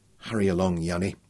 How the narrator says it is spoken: he murmured

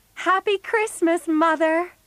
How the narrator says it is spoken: they shouted

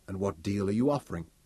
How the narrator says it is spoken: Tug asked softly

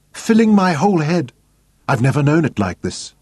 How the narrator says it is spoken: cried

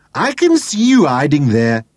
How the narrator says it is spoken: repeated, giggling and snickering

